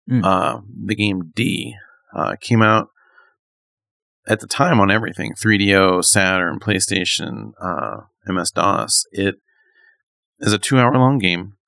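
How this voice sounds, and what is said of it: Hoarse, fading voice. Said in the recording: “I don't know why my voice is going out.”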